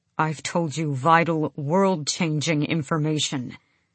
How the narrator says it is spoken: Kaol said through his teeth

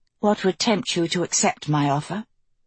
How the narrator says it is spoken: asking quietly

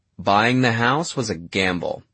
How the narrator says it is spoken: Alice said

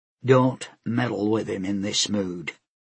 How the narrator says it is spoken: Ibana say in a warning tone

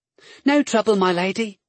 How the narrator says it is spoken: the girl said cheerfully

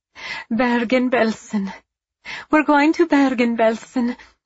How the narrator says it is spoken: a woman cried, a thankful smile on her lips

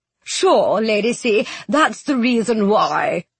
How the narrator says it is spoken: the baby nurse said, chuckling

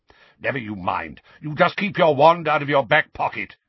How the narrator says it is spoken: growled Mad-Eye

